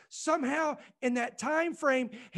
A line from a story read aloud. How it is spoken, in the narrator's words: he cried out